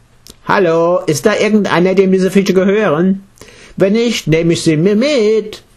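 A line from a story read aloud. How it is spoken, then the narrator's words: Otter calling out. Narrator (German): Der Otter ... rief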